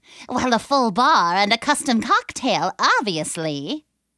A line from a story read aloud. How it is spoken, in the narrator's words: the creature snorted